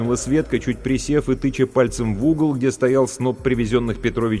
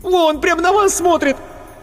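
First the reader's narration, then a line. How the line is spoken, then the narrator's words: Shrieking, yelling. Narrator (Russian): Марина Ходосевич опять взвизгнула, завопила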